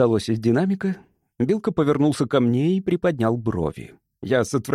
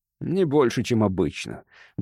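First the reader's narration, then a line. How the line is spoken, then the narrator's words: Grumbled mutter. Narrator (Russian): буркнул я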